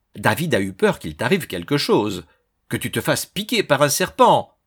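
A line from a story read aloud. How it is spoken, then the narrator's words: Quick exclamation. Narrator (French): s'exclama aussitôt Olivia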